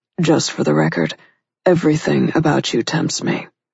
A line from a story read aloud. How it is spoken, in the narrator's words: he murmured